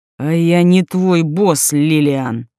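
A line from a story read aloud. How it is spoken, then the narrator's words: Growled. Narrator (Russian): рыкнул Берговец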